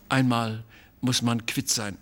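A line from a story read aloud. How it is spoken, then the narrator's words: Plain. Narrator (German): sagte mein Vater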